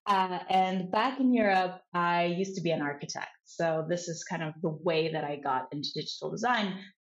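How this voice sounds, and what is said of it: European accent. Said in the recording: “I'm originally from Europe, to address the elephant in the room, which is my accent.”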